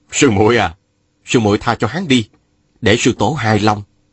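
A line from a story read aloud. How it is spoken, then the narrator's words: Smiling. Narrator (Vietnamese): Mai Kiếm Hòa mỉm cười bảo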